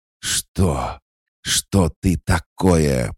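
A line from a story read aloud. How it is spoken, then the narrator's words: Hoarse wheeze. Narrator (Russian): прохрипел Карп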